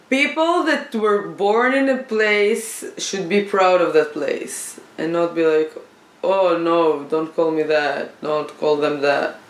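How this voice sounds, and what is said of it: Israeli accent. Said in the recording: “Call me Israeli, I'm proud. Then I love my accent. ... Even if you don't understand me all the time.”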